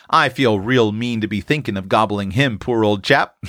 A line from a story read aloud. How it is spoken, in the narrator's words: laughed Prue, with an air of mingled affection and appetite